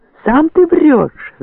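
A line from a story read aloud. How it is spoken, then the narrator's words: Furious yelling. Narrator (Russian): заорал Борейко в бешенстве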